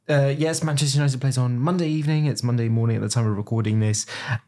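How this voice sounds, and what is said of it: Manchester English accent. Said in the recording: “as you can tell from my accent, a very proud Manchester.”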